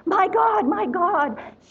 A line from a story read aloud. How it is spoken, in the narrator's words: a lady yelling